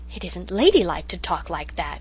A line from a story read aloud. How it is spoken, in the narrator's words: said Cousin Sophia in a shocked tone